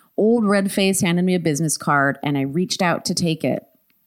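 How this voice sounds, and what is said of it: Usual voice. Nothing is said of it.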